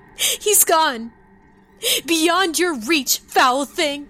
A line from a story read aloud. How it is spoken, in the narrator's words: Kelsa was sobbing, struggling to breathe amongst the smoke and grief